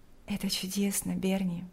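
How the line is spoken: Quiet. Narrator (Russian): тихо сказала Лика

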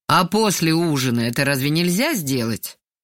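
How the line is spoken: Displeased question. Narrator (Russian): поинтересовался недовольным голосом

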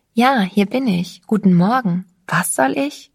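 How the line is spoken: Forced calm answer. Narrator (German): Ich antwortete so ruhig wie nur möglich

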